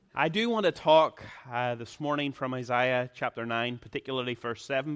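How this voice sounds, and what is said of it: Irish accent. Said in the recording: “It's kind of like a game in Ireland. We have a unique accent where every vowel sounds exactly the same. So puts the burden on the listener.”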